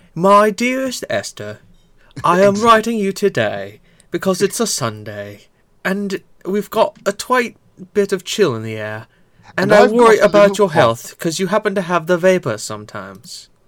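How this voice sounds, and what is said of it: Flowery put-on British accent. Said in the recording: “flowery with a British accent.”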